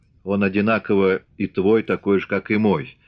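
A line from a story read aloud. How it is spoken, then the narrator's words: Calm answer. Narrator (Russian): спокойно ответил атаман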